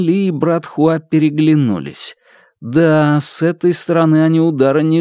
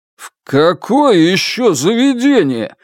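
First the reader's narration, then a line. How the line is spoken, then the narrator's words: Shouted. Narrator (Russian): закричал Янь Ли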